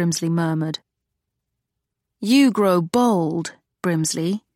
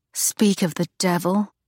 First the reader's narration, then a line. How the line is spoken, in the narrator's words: Charlotte muttered